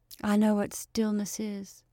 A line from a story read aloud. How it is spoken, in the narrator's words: she said in a queer, monotonous voice